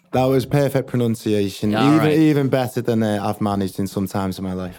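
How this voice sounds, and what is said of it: Liverpool-area English accent. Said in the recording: “I love the accent. What kind of accent is that? ... So it's close to Liverpool. It's a place called Birkenhead, which is just over the water from Liverpool.”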